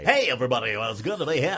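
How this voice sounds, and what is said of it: Exaggerated radio DJ voice. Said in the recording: “the pukey sound ... Can you do a DJ? ... that ridiculous voice”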